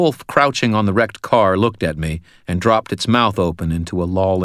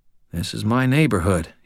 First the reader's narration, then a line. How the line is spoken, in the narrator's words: said quietly